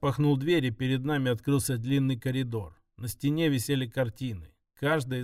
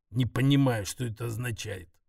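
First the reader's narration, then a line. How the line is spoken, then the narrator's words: Grumbling. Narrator (Russian): проворчал Фирас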